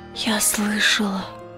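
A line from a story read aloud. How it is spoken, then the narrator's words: Whisper. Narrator (Russian): прошептала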